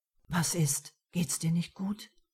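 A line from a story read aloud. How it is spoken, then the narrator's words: Whispered. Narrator (German): flüsterte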